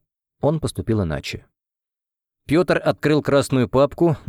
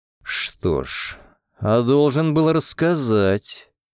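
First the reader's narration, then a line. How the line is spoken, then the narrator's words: Through gritted teeth. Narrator (Russian): процедил он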